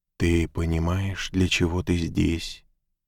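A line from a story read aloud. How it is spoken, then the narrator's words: Soft, gentle voice. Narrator (Russian): Словно ветер, сметающий пыль, ее голос мягко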